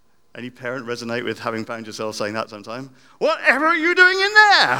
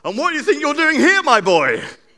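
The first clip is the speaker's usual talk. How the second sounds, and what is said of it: Shocked, cross tone. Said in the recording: “the tone of, ... Shock, crossness. I wonder if that was the tone of voice.”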